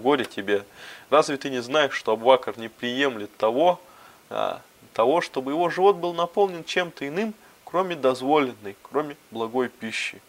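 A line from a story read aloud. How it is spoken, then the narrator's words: Laughing speech. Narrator (Russian): рассмеявшись, обратился к рабу вновь и сказал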